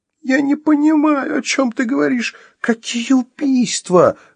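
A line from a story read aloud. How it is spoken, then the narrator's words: Sobbing outcry. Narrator (Russian): рыдая выкрикнула Вероника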